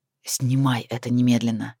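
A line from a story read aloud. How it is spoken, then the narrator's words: Hissed. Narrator (Russian): прошипел Эрвин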